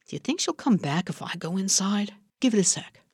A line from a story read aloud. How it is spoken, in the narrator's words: Arturo whispered over Margot's shoulder